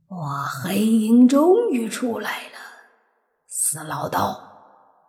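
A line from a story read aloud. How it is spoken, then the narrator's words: Hoarse, laughing. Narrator (Chinese): 黑气里发出一阵沙哑的笑声，说道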